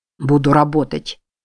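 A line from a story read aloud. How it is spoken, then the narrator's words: Grumbling. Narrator (Russian): проворчал Фоутс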